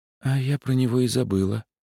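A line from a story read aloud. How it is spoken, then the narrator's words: Woman's guilty sigh. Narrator (Russian): виновато вздохнула женщина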